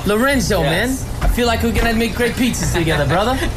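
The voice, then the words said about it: Put-on New York accent, drifting Italian. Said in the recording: “it's not the best accent that I've ever heard. ... You kind of drift into a little bit of Italian, and then there's like even a bit of Indian in there as well. ... he was convinced I was from New York.”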